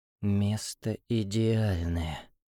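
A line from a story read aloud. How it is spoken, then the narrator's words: Nervous whisper. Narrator (Russian): прошептал Илья, чувствуя, как дрожат руки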